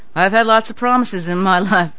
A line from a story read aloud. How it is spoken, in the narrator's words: sighed again